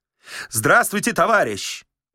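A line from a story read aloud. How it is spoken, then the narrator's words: Loud. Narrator (Russian): громко сказал великий комбинатор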